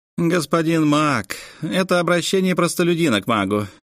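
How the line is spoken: Man sighing. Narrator (Russian): мужчина вздохнул

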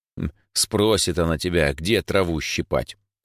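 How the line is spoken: Grumbling. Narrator (Russian): проворчал Димыч

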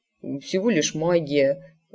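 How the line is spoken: Muttered. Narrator (Russian): пробормотал он

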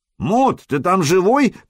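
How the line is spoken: Shout from above. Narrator (Russian): крикнули сверху

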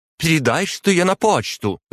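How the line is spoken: Woman's shout. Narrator (Russian): выкрикнула женщина

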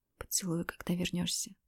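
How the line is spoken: Whispered. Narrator (Russian): прошептала я

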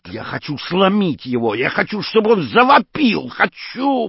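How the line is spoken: Screaming. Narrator (Russian): завопил сам Таггарт

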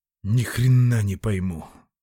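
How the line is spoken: Exhaled breath. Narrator (Russian): выдохнул

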